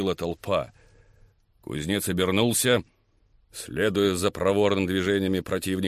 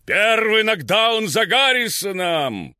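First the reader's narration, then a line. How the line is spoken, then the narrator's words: Thousand voices roaring. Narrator (Russian): прогремело тысяча голосов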